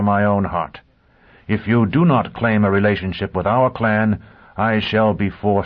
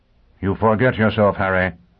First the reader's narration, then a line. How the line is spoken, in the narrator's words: Pristine said coldly